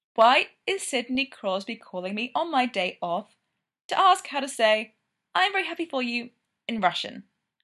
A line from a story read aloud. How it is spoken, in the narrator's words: Kovi said, voice tightly leashed